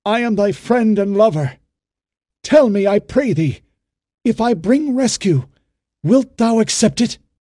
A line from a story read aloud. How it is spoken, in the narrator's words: Ben-Hur made haste to say, his voice sharp with anxiety